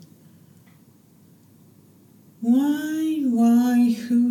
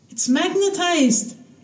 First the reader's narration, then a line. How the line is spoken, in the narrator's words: she yelled at him